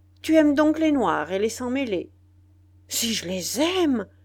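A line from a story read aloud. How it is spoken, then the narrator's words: Exclaimed. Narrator (French): s'écria le citoyen C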